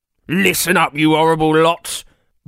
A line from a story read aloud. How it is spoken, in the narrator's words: barked Professor of Heisting Jonathan Van Getaway